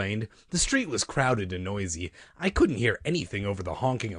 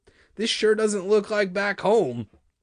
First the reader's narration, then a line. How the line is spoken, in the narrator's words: I exclaimed like a yokel, shouting over the blare of car horns